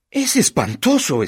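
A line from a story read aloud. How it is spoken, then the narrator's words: Exclaimed. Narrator (Spanish): exclamó Mrs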